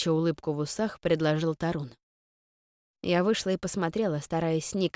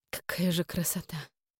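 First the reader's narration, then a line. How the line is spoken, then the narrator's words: Moaning. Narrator (Russian): простонала я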